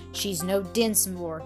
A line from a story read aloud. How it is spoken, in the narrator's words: he said coldly